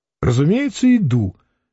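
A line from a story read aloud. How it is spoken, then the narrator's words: Cheerful reply. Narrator (Russian): весело ответил Самгин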